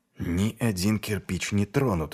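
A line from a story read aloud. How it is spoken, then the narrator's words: Mumble. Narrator (Russian): бормотал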